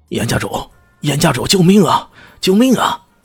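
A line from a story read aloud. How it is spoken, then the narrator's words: Crowd shouting. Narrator (Chinese): 那些人一个个嘴里大喊道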